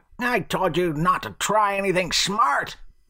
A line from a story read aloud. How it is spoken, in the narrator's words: the old man snarled